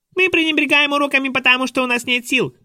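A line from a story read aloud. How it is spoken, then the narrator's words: Squeaky voice. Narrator (Russian): пропищал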